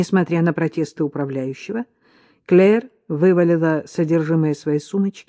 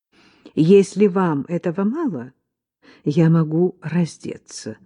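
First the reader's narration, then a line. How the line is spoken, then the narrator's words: Calm. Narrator (Russian): спокойно предложила Клэр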